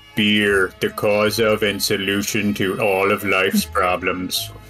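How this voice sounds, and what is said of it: Homer Simpson cartoon voice impression. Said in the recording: “That is such a good impression.”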